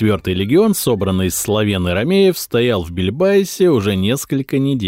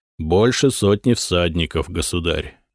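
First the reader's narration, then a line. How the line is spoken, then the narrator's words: Muffled, hollow reply. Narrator (Russian): глухо ответил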